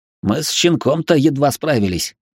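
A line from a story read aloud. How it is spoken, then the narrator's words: Remark with a snort. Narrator (Russian): хмыкнув, заметил Донни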